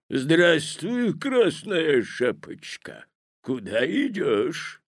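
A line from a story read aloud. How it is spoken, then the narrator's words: Hoarse deep bass. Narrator (Russian): спросил волк хриплым басом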